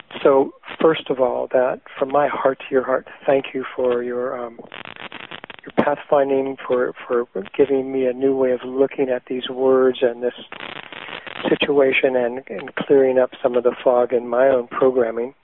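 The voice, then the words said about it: Crunchy, hoarse voice. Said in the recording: “My voice is a little crunchy right now. I've got some little bug I'm dealing with.”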